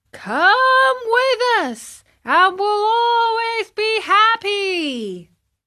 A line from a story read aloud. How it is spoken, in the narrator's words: shouted the 100 and more boys in the wagon all together